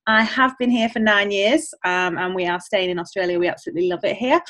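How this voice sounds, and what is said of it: English accent. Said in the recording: “I'm originally from England, as you can probably hear with the accent.”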